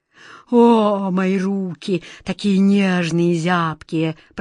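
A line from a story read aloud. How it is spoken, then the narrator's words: Moaning. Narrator (Russian): простонал король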